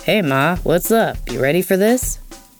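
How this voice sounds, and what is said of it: Deep put-on voice. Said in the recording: “deep voice”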